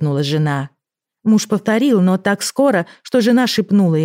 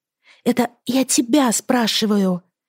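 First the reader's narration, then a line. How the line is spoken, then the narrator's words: Wife's whisper. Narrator (Russian): шепнула жена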